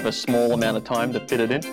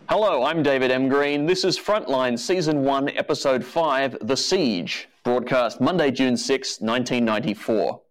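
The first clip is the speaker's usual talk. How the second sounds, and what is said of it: Impression of a TV anchor character. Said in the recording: “your very best uh, Mike Moore imp- impersonation ... say your Mike Moore impression”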